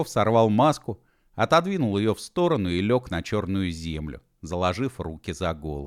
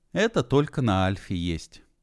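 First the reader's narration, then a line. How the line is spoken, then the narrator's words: Sigh. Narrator (Russian): вздохнул Би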